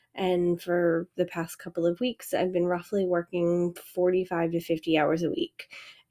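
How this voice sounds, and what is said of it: Voice sounding like a cold. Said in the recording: “you can probably hear it in my voice that I'm starting to get a little cold”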